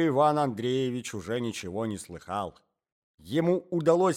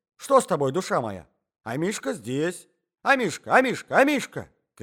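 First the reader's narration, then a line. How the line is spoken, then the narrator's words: Old man shouting. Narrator (Russian): кричал старичок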